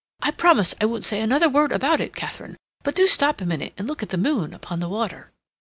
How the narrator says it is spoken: Rodney exclaimed

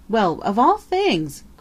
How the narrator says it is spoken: cried Peter

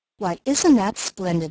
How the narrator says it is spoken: laughed the bird woman

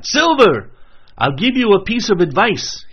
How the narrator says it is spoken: he cried

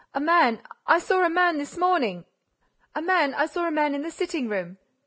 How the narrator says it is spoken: Choking, quite out of breath, Césarine stuttered

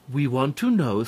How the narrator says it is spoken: said Mother Nature

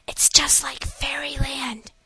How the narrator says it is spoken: whispered the eldest little girl

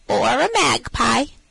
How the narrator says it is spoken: answered she, with a capital imitation of Mistress Mag's croaky voice

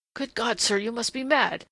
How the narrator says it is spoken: he said in a strained, sharp voice that his ears would not have known as his own

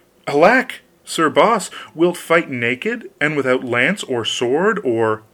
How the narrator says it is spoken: The queen exclaimed

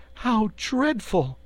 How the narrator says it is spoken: cried Dorothy

